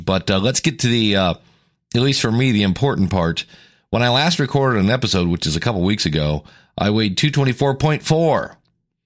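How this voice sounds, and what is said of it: Deeper, raspy voice. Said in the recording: “you sound a little funky ... my voice, I don't lose my voice. It just gets deeper and kind of raspy.”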